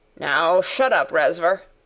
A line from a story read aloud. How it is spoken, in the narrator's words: said roughly